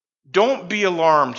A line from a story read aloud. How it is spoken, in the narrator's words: he said